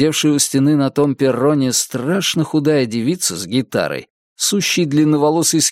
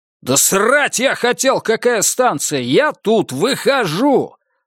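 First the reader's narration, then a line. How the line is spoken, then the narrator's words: Yelling. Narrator (Russian): заорал я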